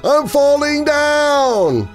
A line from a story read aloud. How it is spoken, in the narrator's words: The voice shouted again